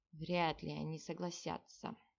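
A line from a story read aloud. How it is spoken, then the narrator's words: Sighing. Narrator (Russian): вздохнул капитан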